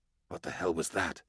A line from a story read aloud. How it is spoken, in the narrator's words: I hissed